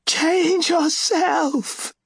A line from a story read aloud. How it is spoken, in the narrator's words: Seret screamed at him